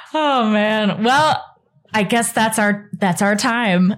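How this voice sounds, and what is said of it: Usual voice. Nothing is said of it.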